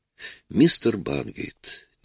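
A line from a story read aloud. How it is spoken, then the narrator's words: Quiet. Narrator (Russian): тихо начал Арин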